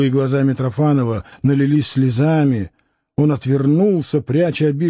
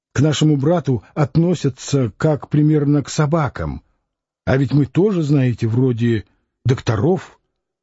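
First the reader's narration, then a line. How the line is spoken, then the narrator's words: Quiet reproachful exclamation. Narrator (Russian): негромко, но с упреком воскликнул он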